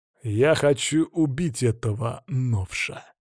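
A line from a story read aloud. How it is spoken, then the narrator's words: Calm voice. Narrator (Russian): спокойным голосом заявил Батур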